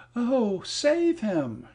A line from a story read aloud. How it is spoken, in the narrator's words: she cried